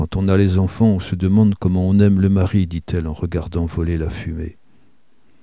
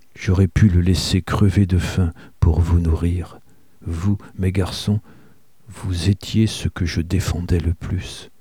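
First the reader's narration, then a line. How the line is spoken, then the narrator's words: Said quietly. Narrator (French): Elle dit tout bas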